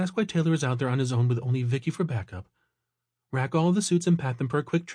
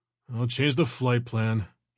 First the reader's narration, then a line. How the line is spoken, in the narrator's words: he grumbled